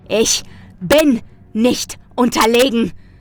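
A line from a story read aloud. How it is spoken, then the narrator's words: Roaring. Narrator (German): brüllte ich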